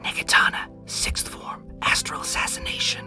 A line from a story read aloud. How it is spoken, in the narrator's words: in a very hushed tone, he whispers